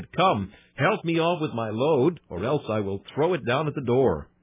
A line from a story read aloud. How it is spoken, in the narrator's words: Henry Erskine, and cried